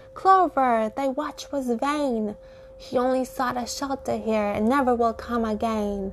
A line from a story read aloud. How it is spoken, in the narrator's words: the wondering flowers all cried out loud